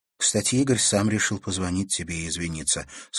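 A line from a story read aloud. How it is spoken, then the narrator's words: Plain. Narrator (Russian): сказала Наташа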